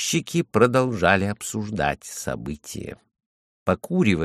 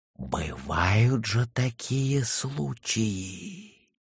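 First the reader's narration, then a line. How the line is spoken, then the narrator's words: Fearful whisper. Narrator (Russian): со страхом прошептала Майя Лиса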